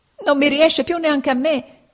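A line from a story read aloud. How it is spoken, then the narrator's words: Crying, tottering shout. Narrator (Italian): gridò Pinocchio, piangendo e traballando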